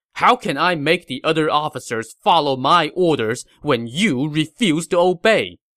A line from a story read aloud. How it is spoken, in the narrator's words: Xu Sheng said angrily